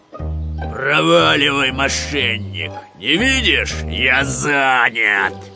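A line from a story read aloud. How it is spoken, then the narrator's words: Bear's growl. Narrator (Russian): большой гризли зарычал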